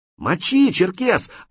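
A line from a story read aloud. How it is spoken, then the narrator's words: Excited shout. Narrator (Russian): азартно закричал Крот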